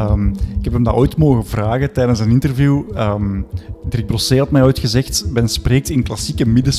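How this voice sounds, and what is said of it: Usual voice. Nothing is said of it.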